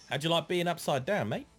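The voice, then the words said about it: Put-on Australian accent. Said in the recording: “Why did I say it in an Australian accent?”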